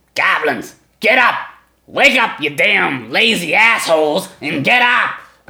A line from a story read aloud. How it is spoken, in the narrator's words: he snarls at you and he goes